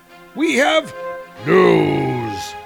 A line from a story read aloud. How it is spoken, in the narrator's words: boomed Utgard Loki, rudely interrupting Thor